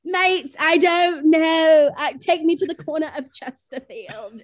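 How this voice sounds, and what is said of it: Put-on black British accent. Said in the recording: “You start putting on a black British accent.”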